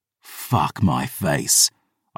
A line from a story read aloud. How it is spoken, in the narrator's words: I snarled